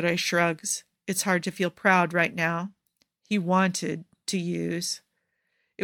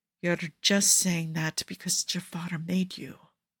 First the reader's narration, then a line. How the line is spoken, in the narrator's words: Cesare whispers